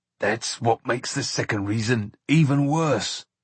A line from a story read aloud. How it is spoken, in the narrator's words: said Bert in a choked voice